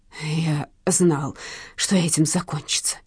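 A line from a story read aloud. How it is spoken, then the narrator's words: Mutter. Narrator (Russian): забормотал он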